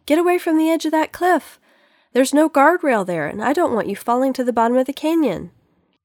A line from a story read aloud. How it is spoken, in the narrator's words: yelled